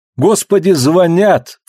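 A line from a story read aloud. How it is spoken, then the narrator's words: Cry of alarm. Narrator (Russian): вскрикнула Клариса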